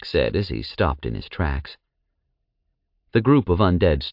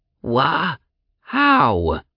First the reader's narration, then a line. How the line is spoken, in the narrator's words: the undead sputtered with confusion